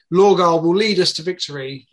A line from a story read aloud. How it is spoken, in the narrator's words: he shouts